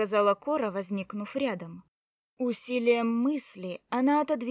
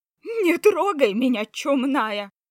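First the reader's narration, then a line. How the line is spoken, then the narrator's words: Falsetto shriek. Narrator (Russian): Фальцетом взвизгнул Серый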